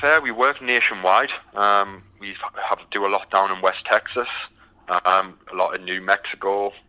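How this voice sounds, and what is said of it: British accent. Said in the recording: “I noticed your accent is uh, very distinct ... as you can tell by the accent, I'm from the from the UK”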